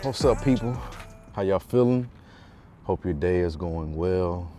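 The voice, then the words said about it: Out of breath. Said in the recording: “Sorry if I'm out of breath, I just literally ran”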